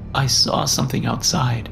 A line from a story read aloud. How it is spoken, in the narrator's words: I said, my mouth vibrating as I sucked back sobs